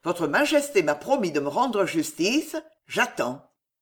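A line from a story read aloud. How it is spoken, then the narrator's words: Firm tone. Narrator (French): dit François d'un ton ferme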